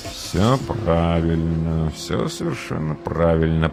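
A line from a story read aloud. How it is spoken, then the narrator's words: Muttering. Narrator (Russian): пробормотал реалист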